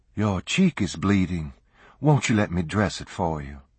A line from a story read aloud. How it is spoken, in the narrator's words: She spoke gently